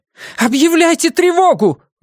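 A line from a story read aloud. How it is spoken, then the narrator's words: Shout. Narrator (Russian): выкрикнула Лин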